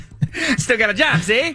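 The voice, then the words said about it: 1920s gangster voice impression. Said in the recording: “1920s gangster ... that was bad ... yours is not good”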